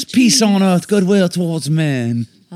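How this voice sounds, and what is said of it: Put-on British accent. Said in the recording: “I love when I start talking with my British accent.”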